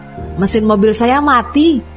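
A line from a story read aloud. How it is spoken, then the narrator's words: Exclaiming. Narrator (Indonesian): serunya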